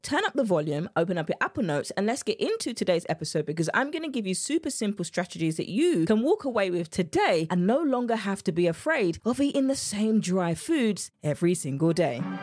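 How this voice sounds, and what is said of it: English accent. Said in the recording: “My English accent came out a lot right there.”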